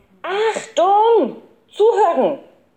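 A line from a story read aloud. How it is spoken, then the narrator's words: Professor shouting. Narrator (German): schrie der Professor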